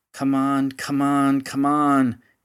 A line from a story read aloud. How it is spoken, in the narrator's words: he grumbled